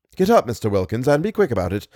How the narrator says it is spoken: said Smith

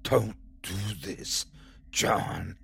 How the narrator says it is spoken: She whispers angrily to him

